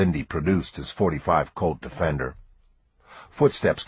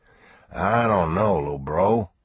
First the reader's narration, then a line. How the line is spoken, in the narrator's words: he grumbled